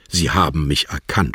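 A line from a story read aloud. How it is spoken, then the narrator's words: Stammering. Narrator (German): stammelte sie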